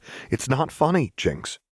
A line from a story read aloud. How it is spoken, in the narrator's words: Luck said sharply